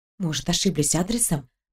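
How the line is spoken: Whispered. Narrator (Russian): прошептала я Маше

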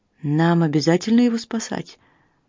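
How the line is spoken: Glum question. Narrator (Russian): уныло спросил Берт

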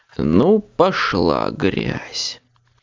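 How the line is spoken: Groaned. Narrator (Russian): застонал

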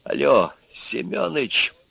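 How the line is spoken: Quiet, hurried speech. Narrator (Russian): И Аристарх заговорил негромко и торопливо

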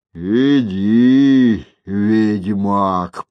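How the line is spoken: Grumbling. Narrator (Russian): проворчал

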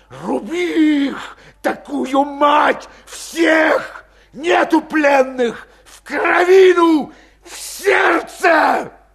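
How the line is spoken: Exhausted barking shout. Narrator (Russian): закричал выдохшимся лающим голосом

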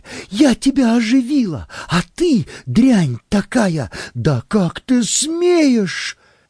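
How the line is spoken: Hysterical shouting. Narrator (Russian): я бросила вдогонку вторую подушку и закричала еще более истерично

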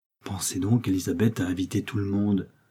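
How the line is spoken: Loud stage whisper. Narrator (French): chuchota Marie assez haut pour être entendue

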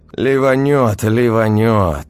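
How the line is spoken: Convinced exhale. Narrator (Russian): убежденно выдохнул я

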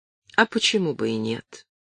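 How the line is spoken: Calm, slightly sad smile. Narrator (Russian): улыбнулся спокойно и немного грустно

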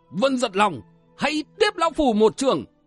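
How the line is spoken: Taoist's sudden shout. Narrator (Vietnamese): Đạo sĩ mũi quạp bỗng quát lên

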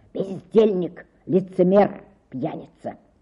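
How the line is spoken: Stifled whisper. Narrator (Russian): сдавленный шепот

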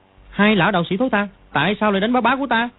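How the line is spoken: Angry shout. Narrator (Vietnamese): nó tức giận quát

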